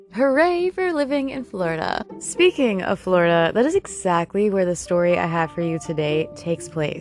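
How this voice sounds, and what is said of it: Deeper, congested voice. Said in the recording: “I am currently suffering from severe allergies ... my voice is a bit deeper because I can barely breathe out of my nose”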